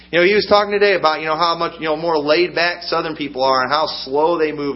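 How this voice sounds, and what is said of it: Northern US accent. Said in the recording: “I'm a Southern boy at heart. But I talk like a Northerner. ... I talk like a Yankee.”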